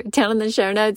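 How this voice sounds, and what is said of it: Regional accent coming through. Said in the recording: “my accent really came out there”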